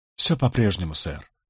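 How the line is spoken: Sad. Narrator (Russian): грустно ответил Сибрант

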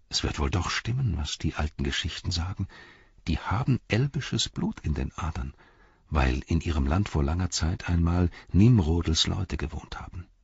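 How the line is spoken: People whispering. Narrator (German): die Menschen … flüsterten sie

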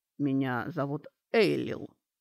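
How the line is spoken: Elf, calm now. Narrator (Russian): уже спокойно сказал эльф

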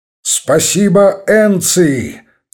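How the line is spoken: Firm, friendly shout. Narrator (Russian): твердо и приветливо крикнул генерал

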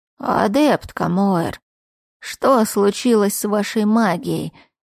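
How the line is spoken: Creaky voice. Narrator (Russian): проскрипел он

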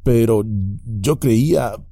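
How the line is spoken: Stammering. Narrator (Spanish): balbuceó

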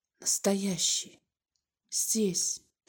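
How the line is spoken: Soundless whisper. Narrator (Russian): прошептал одними губами

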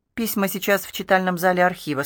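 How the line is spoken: Plain. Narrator (Russian): сказал Бен

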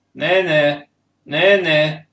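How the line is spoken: Quavering goatish call. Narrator (Russian): дребезжащим козлиным голосом стал звать

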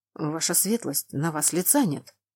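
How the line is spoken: Whispered remark. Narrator (Russian): шепотом отметил мужчина

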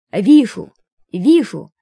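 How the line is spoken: Old man yelling. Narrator (Russian): старец периодически вопил

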